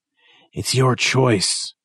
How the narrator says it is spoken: Chappelle gasps, his skinny body shaking

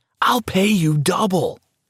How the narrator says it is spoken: she shouted

